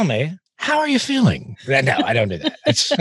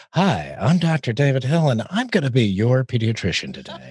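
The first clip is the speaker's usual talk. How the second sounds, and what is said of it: Put-on radio announcer voice. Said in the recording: “The radio voice, you know, says”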